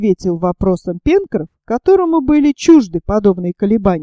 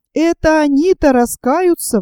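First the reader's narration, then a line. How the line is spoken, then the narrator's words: Sailor exclaiming. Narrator (Russian): воскликнул моряк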